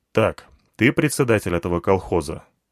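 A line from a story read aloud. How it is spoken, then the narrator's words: Stern question. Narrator (Russian): спросил я строго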